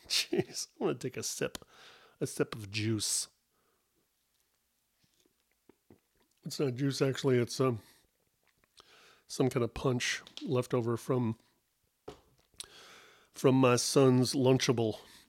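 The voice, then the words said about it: Breathless, out-of-breath speech. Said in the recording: “I'm out of breath just from sitting here and talking”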